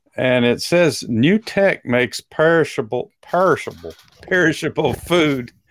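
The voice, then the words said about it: Brief put-on Texas accent. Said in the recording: “that was my Texas accent coming out”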